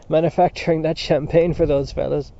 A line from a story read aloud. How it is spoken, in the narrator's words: He broke into a fit of laughter and coughing and added